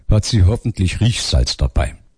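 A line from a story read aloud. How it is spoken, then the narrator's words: Murmured aside. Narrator (German): raunte Danuta dem Priester zu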